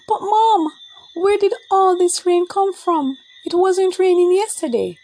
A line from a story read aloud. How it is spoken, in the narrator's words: Babsy exclaimed